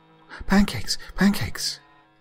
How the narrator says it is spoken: Stacy squealed like she did whenever we had pancakes

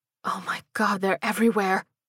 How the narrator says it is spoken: Mary breathed

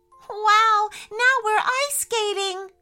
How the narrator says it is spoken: cried, spinning around with so much happiness

